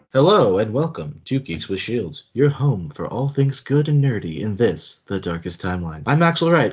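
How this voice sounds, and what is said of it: Smooth, silky radio-announcer voice. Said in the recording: “trying out my silky voice ... You belong on NPR ... it's like NPR”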